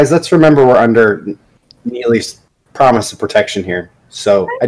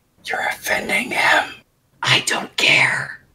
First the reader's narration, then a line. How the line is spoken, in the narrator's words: kind of whispers